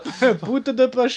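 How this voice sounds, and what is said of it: Put-on Japanese accent. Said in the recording (French): “refais-moi bien avec l'accent jap.”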